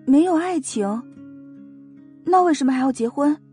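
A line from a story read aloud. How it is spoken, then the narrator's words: Deep sigh. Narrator (Chinese): 王姨深深的叹了一口气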